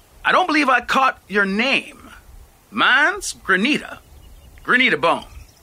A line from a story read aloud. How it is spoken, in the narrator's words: called out once he was well on his way